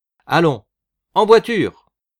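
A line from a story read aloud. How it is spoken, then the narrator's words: Shouting. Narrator (French): cria Barou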